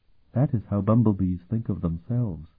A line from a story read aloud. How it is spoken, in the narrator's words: Sophronia said quite calmly